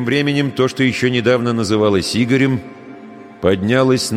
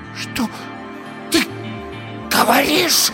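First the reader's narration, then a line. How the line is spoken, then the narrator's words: Hoarse frightening whisper. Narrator (Russian): Хриплый шепот Ирины был страшнее любого крика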